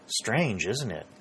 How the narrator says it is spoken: said Pennington

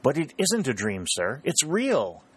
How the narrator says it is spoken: exclaimed Harry joyfully

